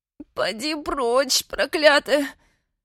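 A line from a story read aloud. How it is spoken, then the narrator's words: Through gritted teeth. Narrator (Russian): Сквозь зубы отозвалась копченка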